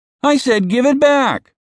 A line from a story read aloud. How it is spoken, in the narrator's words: John cried, jumping